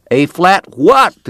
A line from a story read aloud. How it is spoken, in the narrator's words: the cowboy shouted back